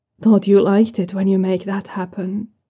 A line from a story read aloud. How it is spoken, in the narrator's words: Siago murmured a barely intelligible